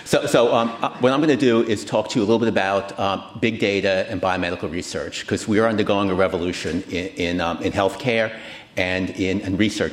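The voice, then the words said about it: New York accent. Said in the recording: “you can tell from my accent, I'm not from California, I'm from New York”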